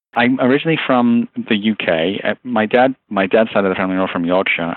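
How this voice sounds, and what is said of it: English Liverpool-based accent. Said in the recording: “you have an accent ... the base of my accent, if you will, is from Liverpool. I'm a Scouser ... my accent was a bit of a mishmash of various things. And now I've got just enough English accent left”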